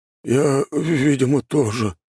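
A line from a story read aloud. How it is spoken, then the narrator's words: Dejected voice. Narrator (Russian): упавшим голосом произнес он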